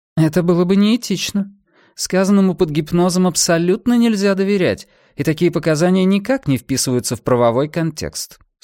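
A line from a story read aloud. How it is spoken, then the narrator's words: Dry, curt reply. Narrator (Russian): сухо ответила она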